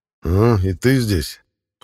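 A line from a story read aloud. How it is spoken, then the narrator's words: Muttered under breath. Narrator (Russian): Пробурчал я под нос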